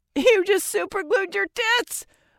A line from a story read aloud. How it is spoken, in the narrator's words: loudest friend finally yelled